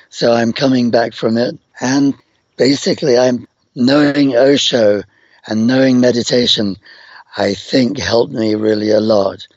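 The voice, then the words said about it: Rough, croaky voice. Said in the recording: “You can hear my voice is rough. ... I couldn't make any noise for several years, and then I was just croaking.”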